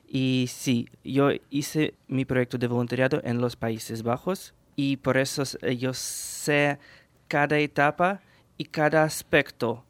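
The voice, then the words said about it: Ukrainian accent in Spanish. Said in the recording (Spanish): “soy ucraniano, por eso tengo este acento maravilloso”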